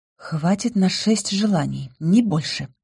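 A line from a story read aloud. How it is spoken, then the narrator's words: Whispered. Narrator (Russian): прошептала русалка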